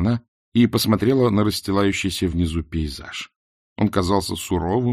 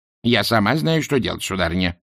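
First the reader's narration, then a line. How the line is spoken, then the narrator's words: Snapping. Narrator (Russian): огрызнулась матушка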